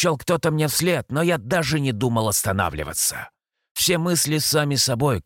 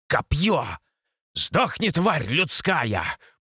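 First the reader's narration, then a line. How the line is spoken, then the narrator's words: Centaur's roar. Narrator (Russian): проревел все тот же кентавр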